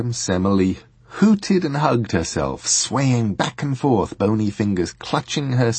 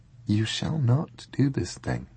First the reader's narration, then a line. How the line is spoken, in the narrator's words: said her guest, very quietly